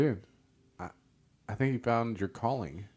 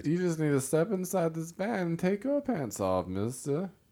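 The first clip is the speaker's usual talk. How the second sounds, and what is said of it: Weird creepy serial-killer voice. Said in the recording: “I don't know what kind of weird voice I'm doing. ... Somebody who's a serial killer, apparently.”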